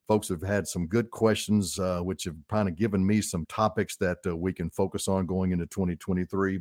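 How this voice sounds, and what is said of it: Southern Arkansas accent. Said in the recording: “this old Arkansas boy with this accent that I have... it's a God-given Arkansas accent”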